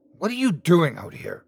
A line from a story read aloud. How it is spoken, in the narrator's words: I demanded angrily